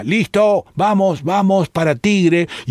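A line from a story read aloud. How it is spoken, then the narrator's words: Shouting. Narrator (Spanish): un montonero que está subido a un árbol grita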